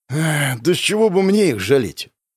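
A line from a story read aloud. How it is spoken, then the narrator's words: Hoarse exhale. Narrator (Russian): Сипло выдохнул первый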